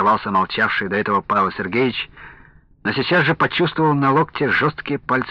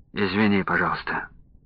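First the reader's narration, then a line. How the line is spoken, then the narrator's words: Quiet reply. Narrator (Russian): так же тихо ответил ему Якушев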